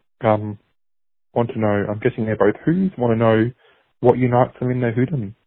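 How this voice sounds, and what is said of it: Australian accent. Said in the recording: “it sounds like you're from Australia ... the Australian accent”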